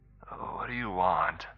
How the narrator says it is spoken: She slurred

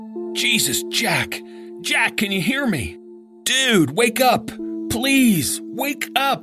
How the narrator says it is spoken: he screamed

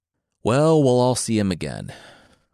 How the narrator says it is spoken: Odysseus said with a sigh

